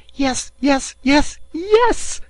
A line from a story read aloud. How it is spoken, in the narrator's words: cried Passepartout